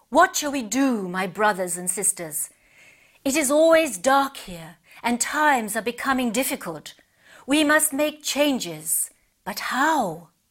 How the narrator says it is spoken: Wise Owl called out

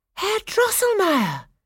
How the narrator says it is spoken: cried Clara

